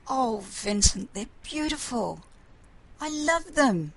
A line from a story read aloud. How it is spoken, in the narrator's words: said happily